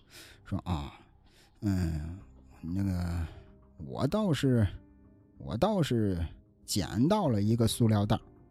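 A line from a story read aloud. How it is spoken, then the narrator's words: Old man mumbling. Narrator (Chinese): 老头嘟嘟囔囔的说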